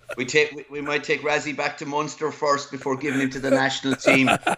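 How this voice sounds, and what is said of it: Strong Irish Clare accent. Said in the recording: “you can hear the Clare accent is still strong”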